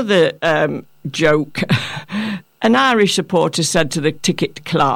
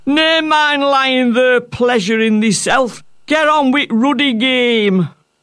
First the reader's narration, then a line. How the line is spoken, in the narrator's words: one of the spectators shouted